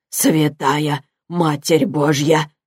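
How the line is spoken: Whisper. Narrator (Russian): прошептал он

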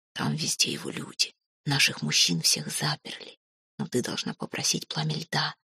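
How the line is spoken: Whisper. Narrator (Russian): шепнула ей Тора

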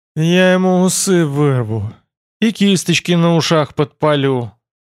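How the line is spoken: Almost moaning. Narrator (Russian): чуть ли не простонал хорг

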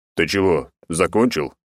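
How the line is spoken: Displeased deep voice. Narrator (Russian): пробасил недовольный Бурый

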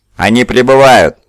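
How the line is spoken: Shouting. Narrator (Russian): закричал Утизар

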